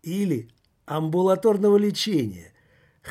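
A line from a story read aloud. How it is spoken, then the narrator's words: Chuckle. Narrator (Russian): хохотнул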